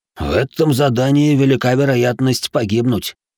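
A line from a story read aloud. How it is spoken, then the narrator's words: Dry snorting remark. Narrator (Russian): хмыкнул второй чёрный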